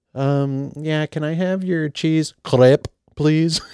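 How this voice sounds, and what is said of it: Bad put-on accent, sounds Russian. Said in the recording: “That was horrible. ... That was like Russian.”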